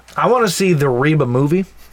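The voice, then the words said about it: Put-on Southern country accent. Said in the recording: “I don't know why I have an accent all of a sudden ... Because that's exactly Reba. What she sounds like ... she got that country accent.”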